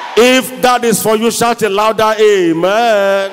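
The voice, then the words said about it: Shouting loudly. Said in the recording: “I'm shouting too much. Let me lower my voice.”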